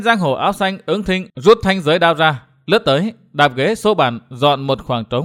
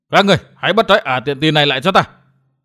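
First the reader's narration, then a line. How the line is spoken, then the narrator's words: Furious shaking shout. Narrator (Vietnamese): Gã thiếu niên áo lam giận run người quát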